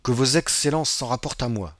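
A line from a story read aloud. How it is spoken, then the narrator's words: Self-assured tone. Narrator (French): dit Maître Pastrini d'un ton capable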